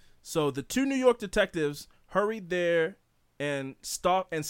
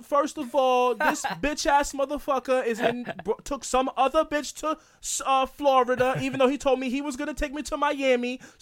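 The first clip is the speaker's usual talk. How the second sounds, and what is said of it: Put-on New York accent. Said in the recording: “I've been working on my New York accent.”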